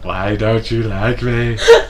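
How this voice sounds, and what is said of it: Put-on sexy voice. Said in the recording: “That's my sexy voice. ... I thought you were imitating some characters from Avenue Q or something.”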